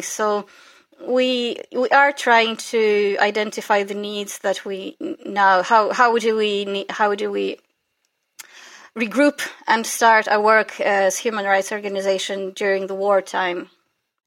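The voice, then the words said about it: Slight Northern Irish accent. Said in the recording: “you've got a slight Northern Irish accent ... what is a woman from Ukraine doing with that accent?”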